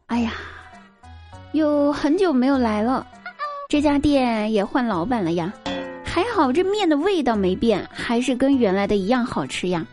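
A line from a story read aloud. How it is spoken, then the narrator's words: Sighing exclamation. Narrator (Chinese): 感叹道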